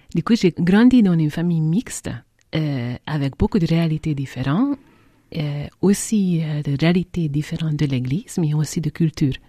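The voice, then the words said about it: Non-native French, very mixed accent. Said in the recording (French): “on entend bien que vous n'êtes pas française. Hongroise. ... j'ai un accent très très mélangé”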